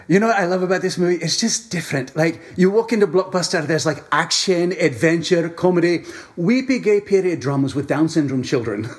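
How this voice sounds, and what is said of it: Imitates another person's voice. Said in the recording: “that impression... that sounds exactly like Alan Cumming”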